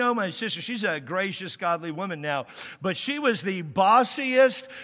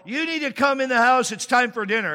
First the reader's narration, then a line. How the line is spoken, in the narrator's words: Gloria came out, and she yelled